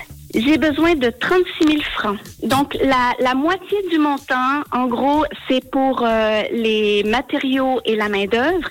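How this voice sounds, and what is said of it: Slight Canadian French accent. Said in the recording (French): “un petit air de Canada ... on entend encore un petit peu l'accent et c'est, j'adore”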